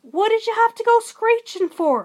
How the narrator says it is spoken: a voice cried from the bush

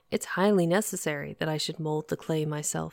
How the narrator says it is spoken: he replied

